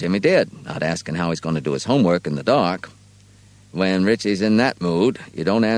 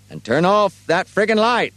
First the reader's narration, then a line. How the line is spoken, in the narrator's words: Richie yelled at him